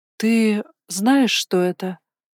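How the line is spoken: Breathless surprise. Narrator (Russian): выдохнула я, не скрывая удивления

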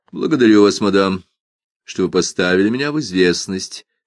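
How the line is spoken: Somewhat dry. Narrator (Russian): сказала несколько сухо

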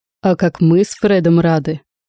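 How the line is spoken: Laughing. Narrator (Russian): рассмеялся дядя

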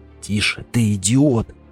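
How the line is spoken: Hissed. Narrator (Russian): прошипел он

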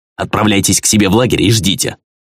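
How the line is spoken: Harsh commanding tone. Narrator (Russian): Приказы были отданы жестким тоном и явно оспариванию не подлежали

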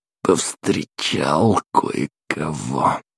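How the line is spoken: Hoarse, strained. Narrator (Russian): сипло выдавил

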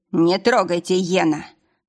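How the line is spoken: Stern interruption. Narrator (Russian): строго оборвал

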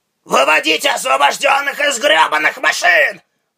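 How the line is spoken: Yell. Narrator (Russian): заорал он

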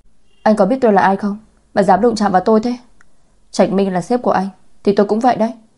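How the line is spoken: Exasperated loud shout. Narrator (Vietnamese): Cô ta không chịu được, lớn tiếng quát

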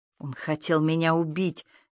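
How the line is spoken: Hateful hiss. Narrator (Russian): с ненавистью прошипела она

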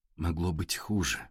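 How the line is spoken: Soft. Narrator (Russian): мягко сказала Александра Игоревна

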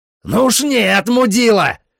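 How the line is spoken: Yelling. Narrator (Russian): заорал я

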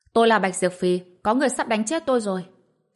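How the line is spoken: Sudden loud shout. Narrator (Vietnamese): Bạch Diệp Phi đột nhiên hét lớn

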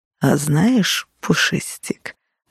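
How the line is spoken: Purring voice. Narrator (Russian): промурлыкал

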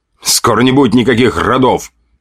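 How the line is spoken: Snorting. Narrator (Russian): хмыкнул полицейский

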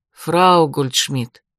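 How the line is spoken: Soft, charming, smiling. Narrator (Russian): мягко улыбнулся Эрик, призывая все свое обаяние

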